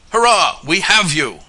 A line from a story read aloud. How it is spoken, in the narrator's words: yelled Larry Colby as he rushed up